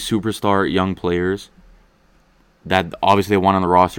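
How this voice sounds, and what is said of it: Usual voice. Nothing is said of it.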